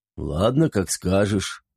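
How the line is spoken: Grumbled. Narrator (Russian): буркнул Дубина

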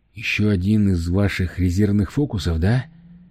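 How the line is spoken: Weary question. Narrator (Russian): устало спросил он

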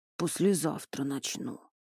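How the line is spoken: Irritated mutter. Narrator (Russian): буркнул тот, не в силах уже слушать недовольное гудение

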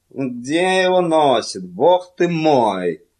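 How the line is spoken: Grumbling. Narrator (Russian): проворчал Билли

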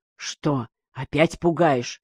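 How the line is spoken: Quiet question. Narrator (Russian): спросил тихо

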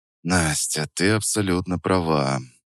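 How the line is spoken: Sigh. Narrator (Russian): вздохнул

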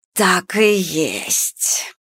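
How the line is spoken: Hissing. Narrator (Russian): прошипела Ишара

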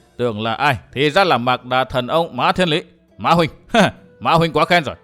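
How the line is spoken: Hurried loud laughing. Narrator (Vietnamese): Đào Tử Thục vội cười lớn nói

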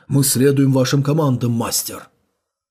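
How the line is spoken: Cold reply. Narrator (Russian): Рыцарь серебряной маски ответил холодно

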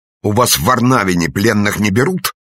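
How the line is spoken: Furious shout. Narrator (Russian): яростно выкрикнул он

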